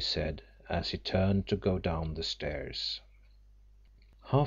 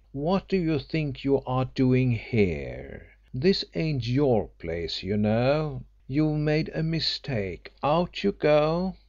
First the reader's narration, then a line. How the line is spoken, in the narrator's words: said the porter haughtily